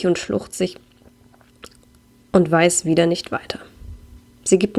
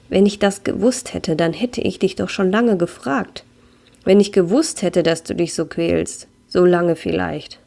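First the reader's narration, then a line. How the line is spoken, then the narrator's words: Sad voice. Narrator (German): sagt mit trauriger Stimme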